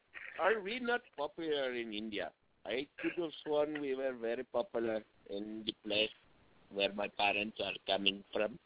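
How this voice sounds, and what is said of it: Put-on Indian accent. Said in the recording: “Is that you in an Indian accent?”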